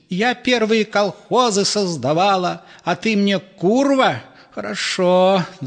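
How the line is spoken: Shouting. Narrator (Russian): закричала теща

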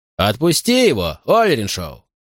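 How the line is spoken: Very calm shout. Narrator (Russian): очень спокойно крикнул шериф Чалфант

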